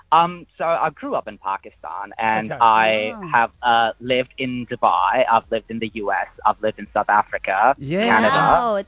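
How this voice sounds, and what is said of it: Mixed international accent. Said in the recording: “his accent. She couldn't understand ... are you American or? ... I'm not American. I've lived around the world, so I've got a mixed up accent ... different accents”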